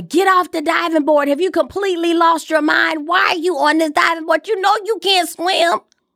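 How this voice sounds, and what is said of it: Screaming at someone. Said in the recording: “I'm screaming”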